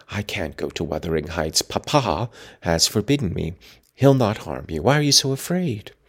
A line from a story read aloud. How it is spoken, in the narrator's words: whispered Catherine